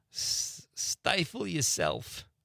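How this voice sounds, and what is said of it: Bad Archie Bunker impression. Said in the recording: “That was my bad Archie Bunker accent.”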